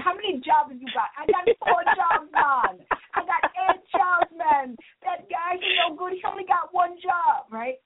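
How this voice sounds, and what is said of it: Put-on Jamaican accent. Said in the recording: “my Jamaican accent ... the Jamaicans on there”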